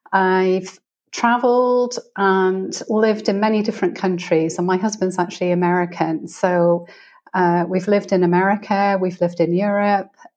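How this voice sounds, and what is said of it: British accent. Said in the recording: “as you can probably tell by my accent, I'm originally from the UK”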